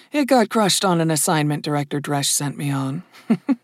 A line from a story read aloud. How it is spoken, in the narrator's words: Dunyasha said with a chuckle